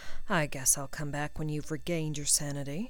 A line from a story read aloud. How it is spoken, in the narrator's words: muttered Draco